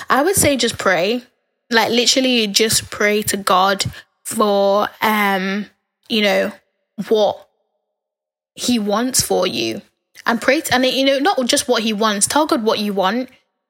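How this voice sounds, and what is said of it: Tired, strained voice. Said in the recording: “I'm losing my voice. I've been talking for so long, I'm nearly losing my voice.”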